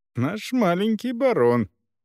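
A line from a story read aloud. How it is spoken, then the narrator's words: Fond laughter. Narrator (Russian): Люси рассмеялась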